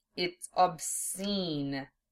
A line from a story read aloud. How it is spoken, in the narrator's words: Zell hissed in his ear